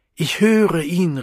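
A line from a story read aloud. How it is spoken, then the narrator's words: Calling out. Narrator (German): rief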